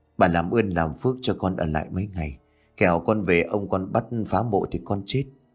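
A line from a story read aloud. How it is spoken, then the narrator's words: Trembling earnest pleading. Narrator (Vietnamese): Nhẫn run rẩy khẩn khoản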